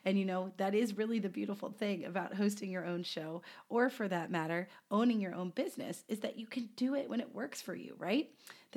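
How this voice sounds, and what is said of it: Sick, congested voice with a cold. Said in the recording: “as I'm sure you can tell from my voice, it is due to the fact that I have picked up a lovely preschool cold ... you might have to hear me clear my throat a few times”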